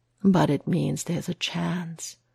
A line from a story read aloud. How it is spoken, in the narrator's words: Matt whispers